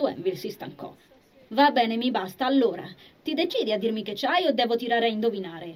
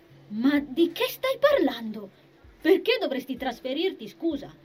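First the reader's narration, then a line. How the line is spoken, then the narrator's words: Heated girl's exclamation. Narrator (Italian): esclamò la ragazza un po' troppo accalorata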